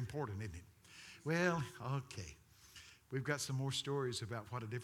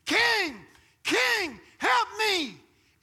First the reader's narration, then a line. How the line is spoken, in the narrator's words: a woman is screaming